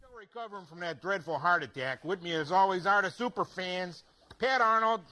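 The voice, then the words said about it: Exaggerated Chicago accent. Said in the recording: “the Chicago accent, according to the people in the skit. And it's a skit, though, right? So it's exaggerated.”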